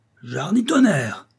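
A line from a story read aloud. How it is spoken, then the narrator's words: Shouted. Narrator (French): hurla le duc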